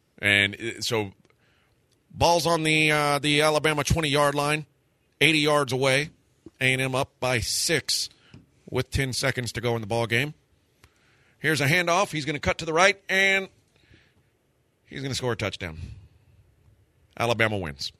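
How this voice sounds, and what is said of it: Dave South sportscaster impression. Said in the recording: “my Dave South impersonation of him calling a touchdown for the other team”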